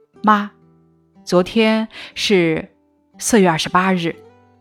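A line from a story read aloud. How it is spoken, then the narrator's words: Low tearful, teeth clenched. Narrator (Chinese): 我又哭了，咬紧牙，低声对母亲说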